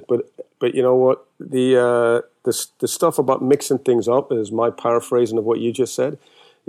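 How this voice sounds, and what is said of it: British accent. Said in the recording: “he's British ... in a British accent ... my accent's not from around these here parts”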